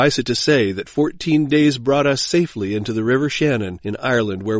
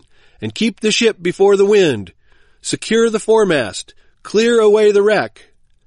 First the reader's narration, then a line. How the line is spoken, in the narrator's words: cried the captain